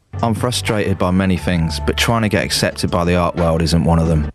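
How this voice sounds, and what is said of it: Cockney accent, pirate-like. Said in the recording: “sounds like a pirate. ... It does, because of his Cockney accent.”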